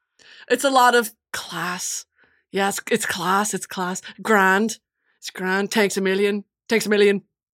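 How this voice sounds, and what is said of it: Put-on Dublin Irish accent. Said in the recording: “For a Dublin accent, thoughts on that?”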